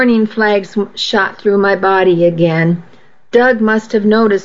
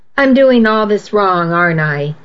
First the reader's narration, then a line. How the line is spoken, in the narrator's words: he said